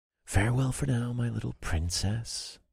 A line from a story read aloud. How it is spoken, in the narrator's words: I murmured to my happy baby